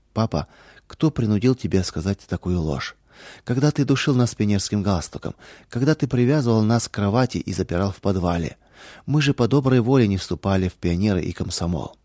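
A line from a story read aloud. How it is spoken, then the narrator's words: Sad question. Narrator (Russian): печально спросили у сломленного отца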